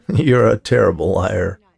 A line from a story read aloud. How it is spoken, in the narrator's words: he said laughingly